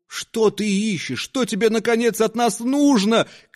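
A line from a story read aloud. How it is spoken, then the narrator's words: Unnaturally thin high shout. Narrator (Russian): крикнул жилец неестественно тоненьким голосом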